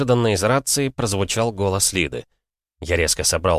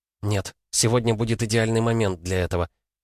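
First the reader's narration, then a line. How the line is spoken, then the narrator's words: Quiet girl's reply. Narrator (Russian): тихо ответила девушка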